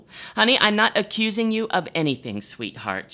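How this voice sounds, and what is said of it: Reads dialogue in a character voice. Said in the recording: “doing the voices as I would do on stage”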